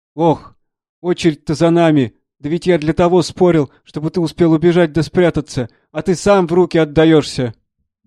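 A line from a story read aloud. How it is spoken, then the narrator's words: Wailing yell. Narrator (Russian): завопил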